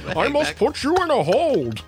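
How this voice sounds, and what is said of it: Deep masked Bane villain voice. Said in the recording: “You slowly revert to Bane every time ... it just becomes Bane”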